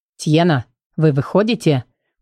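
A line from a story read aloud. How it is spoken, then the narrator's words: Rude call. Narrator (Russian): Грубо окликнул ее кто-то из пассажиров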